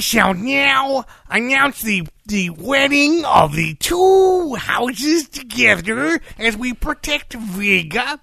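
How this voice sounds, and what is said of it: Over-enunciated cowboy drawl, Anthony Head. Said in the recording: “Anthony Head is talking ... like this almost weirdly ... Over-enunciated Western cowboy drawl ... I am exaggerating for dramatic or perhaps comedic effect.”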